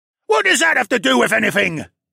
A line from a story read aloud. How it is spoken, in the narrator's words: the other man thundered